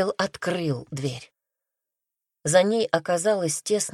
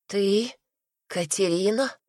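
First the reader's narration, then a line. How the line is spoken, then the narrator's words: Hoarse sleepy voice. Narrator (Russian): проговорила она хрипшим сосна голосом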